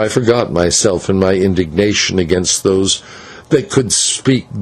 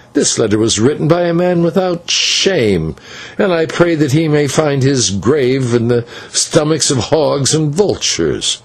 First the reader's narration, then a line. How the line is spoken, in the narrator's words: I cried in wrath